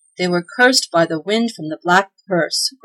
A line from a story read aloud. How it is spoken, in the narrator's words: groaned the father